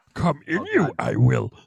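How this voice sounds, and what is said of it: Yoda voice. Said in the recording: “Doing sexy talk in a Yoda voice.”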